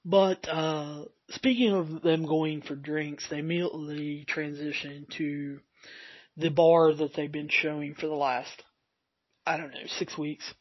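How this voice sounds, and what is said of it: Raspy, slightly hoarse voice. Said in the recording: “my voice is getting a little raspy.”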